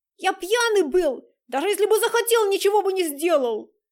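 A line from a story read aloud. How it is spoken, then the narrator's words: Shouted reply. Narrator (Russian): Остап Романов прокричал ему в ответ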